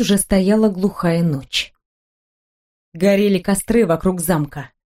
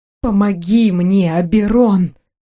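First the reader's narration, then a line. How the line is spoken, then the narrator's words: Silent plea. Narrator (Russian): Молча взмолилась я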